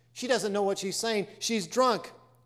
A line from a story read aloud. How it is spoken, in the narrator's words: one rowdy exclaimed